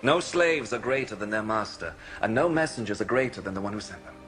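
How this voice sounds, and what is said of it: British accent. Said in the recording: “clearly Jesus speaks with a British accent? ... It's got to be British, yes.”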